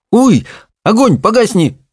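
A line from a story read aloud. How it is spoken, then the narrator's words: Cried out. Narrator (Russian): вскрикнула Чармайн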